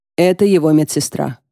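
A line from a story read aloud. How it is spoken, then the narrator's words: Plain. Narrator (Russian): говорит Фахим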